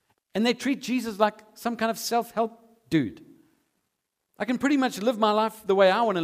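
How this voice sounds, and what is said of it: Usual voice. Nothing is said of it.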